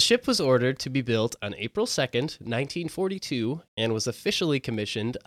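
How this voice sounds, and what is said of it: Usual voice. Nothing is said of it.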